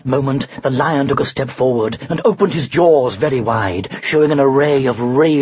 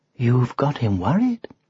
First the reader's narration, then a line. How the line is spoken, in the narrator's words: whispered the witch